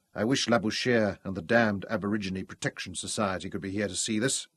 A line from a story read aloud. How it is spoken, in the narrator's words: he murmured to Louise